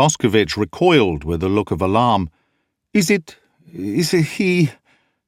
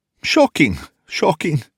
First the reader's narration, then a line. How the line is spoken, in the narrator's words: gasped Boscovich